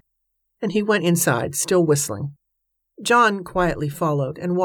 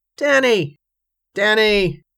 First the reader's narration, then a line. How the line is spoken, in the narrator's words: called out in an exceptionally thunderous voice